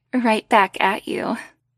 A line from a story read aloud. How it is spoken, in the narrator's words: Ash giggled softly